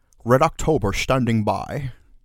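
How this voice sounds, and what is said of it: Poor put-on Scottish accent. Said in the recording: “would you like to hear my Scottish accent? ... Abominable.”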